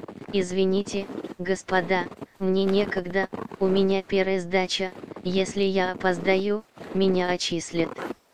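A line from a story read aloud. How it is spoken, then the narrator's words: Calm reply. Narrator (Russian): Тот спокойно ответил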